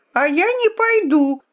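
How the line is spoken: Princess shouting. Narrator (Russian): крикнула королевна

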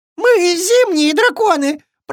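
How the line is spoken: Squeaky tiny dragon. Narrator (Russian): пропищал самый маленький дракончик

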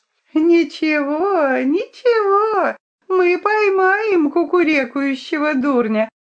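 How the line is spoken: Sing-song with ringing laughter. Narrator (Russian): запела Друмля и звонко рассмеялась, будто перстень упал в хрустальную вазу

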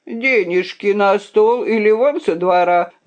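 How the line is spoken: Innkeeper shouting. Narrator (Russian): закричал трактирщик

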